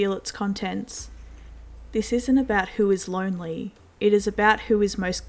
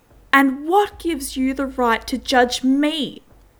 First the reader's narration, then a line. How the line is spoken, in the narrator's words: She shouts at the top of her lungs